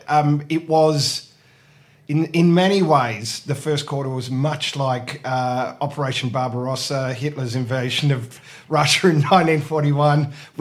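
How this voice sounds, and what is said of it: Slightly hoarse, not clear voice. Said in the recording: “I was vociferous in my support for the team. That might explain why my voice is less than 100% crystal clear.”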